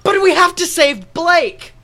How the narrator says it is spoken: I scream

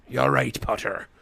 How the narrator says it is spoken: grunted Moody

